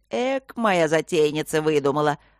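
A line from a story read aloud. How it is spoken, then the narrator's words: Approving hearty laughter. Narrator (Russian): одобрительно хохотал папа Горни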